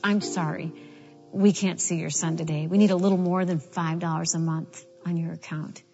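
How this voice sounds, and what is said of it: Harsh voice. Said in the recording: “in a pretty harsh voice”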